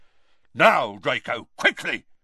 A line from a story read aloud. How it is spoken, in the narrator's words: said the brutal-faced man angrily